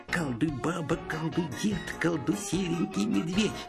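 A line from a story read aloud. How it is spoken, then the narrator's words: Muttering chant. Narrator (Russian): Шурик все бормочет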